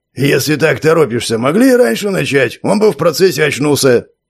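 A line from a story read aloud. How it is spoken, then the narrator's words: Displeased grumble. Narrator (Russian): С явным недовольством буркнул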